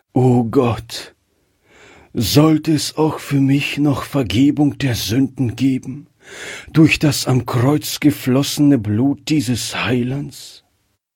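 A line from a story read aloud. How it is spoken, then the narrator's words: Heartfelt sigh. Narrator (German): kam dieser Seufzer aus seinem Herzen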